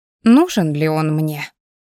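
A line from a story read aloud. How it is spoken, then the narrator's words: Contrary snort. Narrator (Russian): Из духа противоречия фыркнула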